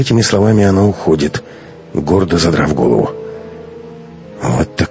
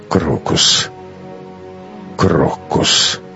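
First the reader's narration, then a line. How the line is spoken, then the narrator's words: Muttered. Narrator (Russian): пробормотал Матвей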